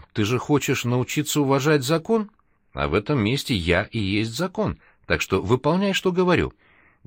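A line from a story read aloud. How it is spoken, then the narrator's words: Sly voice. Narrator (Russian): он лишь хитрым голосом ответил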